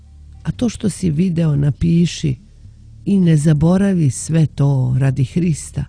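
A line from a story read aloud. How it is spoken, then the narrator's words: Quiet, gentle. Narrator (Serbian): Tiho i lako reče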